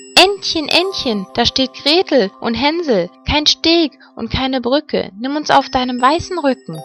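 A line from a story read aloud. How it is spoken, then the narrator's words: Called out. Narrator (German): Da rief sie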